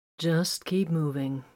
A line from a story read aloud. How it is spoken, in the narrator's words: Grimfang replied calmly